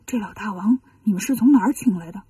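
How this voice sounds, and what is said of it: Quiet, hushed question. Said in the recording (Chinese): “小声问”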